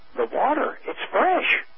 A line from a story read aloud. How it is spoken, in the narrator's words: fairly gasped